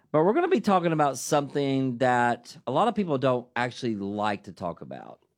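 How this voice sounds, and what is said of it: Southern US country accent. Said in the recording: “my good country accent from Dayton, Tennessee”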